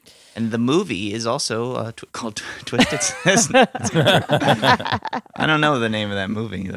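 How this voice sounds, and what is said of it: Usual voice. Nothing is said of it.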